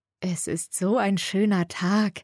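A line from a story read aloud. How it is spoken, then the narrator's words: Purring softly. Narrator (German): säuselt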